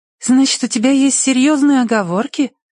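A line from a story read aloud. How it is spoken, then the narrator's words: Insistent, innocent tone. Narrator (Russian): настаивает она невиннейшим голосом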